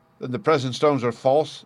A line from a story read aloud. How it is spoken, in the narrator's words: I cried